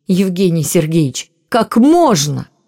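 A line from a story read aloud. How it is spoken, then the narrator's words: Shouting. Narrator (Russian): Она не просто повысила голос, но по-настоящему закричала на доктора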